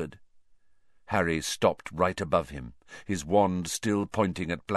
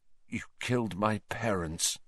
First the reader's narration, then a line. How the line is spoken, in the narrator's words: said Harry, his voice shaking slightly